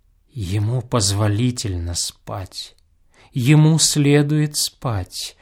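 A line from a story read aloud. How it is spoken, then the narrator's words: Whisper. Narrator (Russian): продолжал снова шепотом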